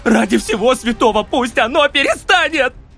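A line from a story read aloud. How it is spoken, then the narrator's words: Shouting. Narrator (Russian): кричал он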